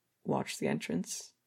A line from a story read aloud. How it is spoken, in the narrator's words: Clown said, his voice low and raspy